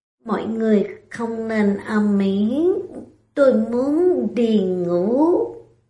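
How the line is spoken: Annoyed mumbling. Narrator (Vietnamese): Lâm Tử Hàng phiền hà lẩm bẩm

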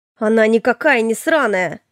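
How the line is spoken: Roaring. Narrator (Russian): взревел Илья

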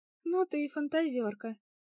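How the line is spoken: Laughing. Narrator (Russian): рассмеялась подруга

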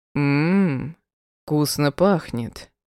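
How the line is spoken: Drawling husband. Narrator (Russian): протянул муж

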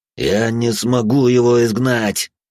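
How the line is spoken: Forced through clenched teeth. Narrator (Russian): Сквозь зубы выдавил отец Марк

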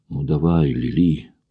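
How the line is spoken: Whisper. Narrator (Russian): прошептал он

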